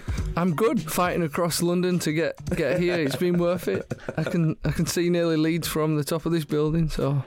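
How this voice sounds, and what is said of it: Yorkshire accent. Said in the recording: “your accent. You sound very, very down to earth ... some sort of down-to-earth Yorkshire boy”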